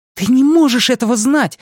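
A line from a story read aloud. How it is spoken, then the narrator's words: Heated exclamation. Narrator (Russian): с таким жаром воскликнула Беверли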